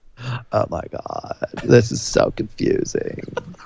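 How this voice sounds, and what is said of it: Valley Girl voice with vocal fry. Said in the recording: “Got to get the vocal fry in there if you're going to do Valley Girl.”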